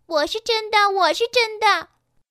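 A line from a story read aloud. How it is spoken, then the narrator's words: Calling out. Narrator (Chinese): 每匹碧琪都叫宣着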